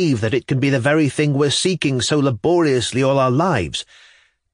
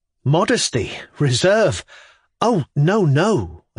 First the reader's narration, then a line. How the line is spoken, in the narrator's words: exclaimed, blushing